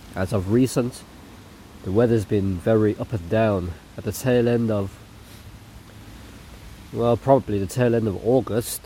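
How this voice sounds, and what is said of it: Slightly weird, unwell-sounding voice. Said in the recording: “my voice is a bit weird. I've just been under the weather.”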